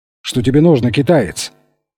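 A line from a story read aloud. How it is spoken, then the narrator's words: Sharp question. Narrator (Russian): резко спросил Алессандро, старший из братьев Солано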